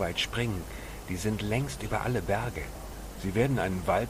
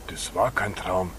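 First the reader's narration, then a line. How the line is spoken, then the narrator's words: Hissing. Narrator (German): zischte der andere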